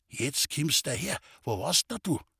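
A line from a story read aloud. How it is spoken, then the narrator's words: Old man speaking quietly. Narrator (German): Der Alte sagte mit leiser Stimme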